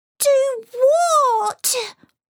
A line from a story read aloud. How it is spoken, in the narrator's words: He wailed